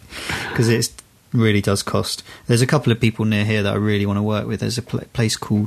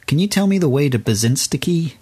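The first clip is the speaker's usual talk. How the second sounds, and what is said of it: Imitated American tourist accent. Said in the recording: “That was an American accent, by the way.”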